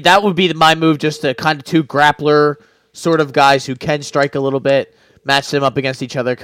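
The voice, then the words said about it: Hoarse, fading voice. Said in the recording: “my voice is starting to leave me now... deteriorate... it's deteriorating a little bit”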